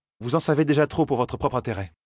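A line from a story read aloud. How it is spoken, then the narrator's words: Curt reply. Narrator (French): répondit sèchement Nineveh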